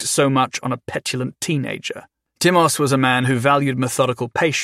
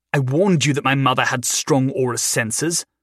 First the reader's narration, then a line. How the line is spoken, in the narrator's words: Thadwick spat back